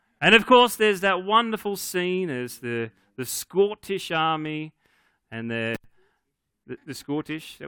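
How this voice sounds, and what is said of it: Bad put-on Scottish accent. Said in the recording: “That was my bad Scottish accent.”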